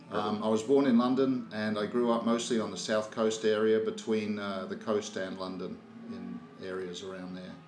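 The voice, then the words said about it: Slight Australian accent. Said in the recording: “I have a bit of an Australian accent ... you still had time to develop that Australian”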